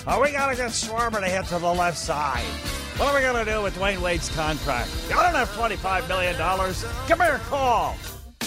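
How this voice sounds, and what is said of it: Mock sports radio host voice. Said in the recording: “That's my impersonation of a sports show.”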